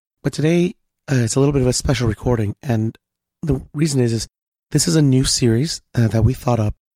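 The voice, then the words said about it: Voice sounds a little off. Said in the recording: “my voice is a little messed up”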